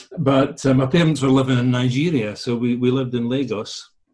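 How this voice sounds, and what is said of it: Scottish Lothian and Borders accent. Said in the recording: “my accent is kind of ... So I'm a kind of mix Lothian and border when I'm speaking.”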